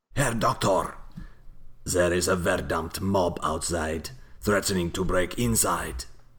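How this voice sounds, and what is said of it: Put-on German accent. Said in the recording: “You do a better German accent than me”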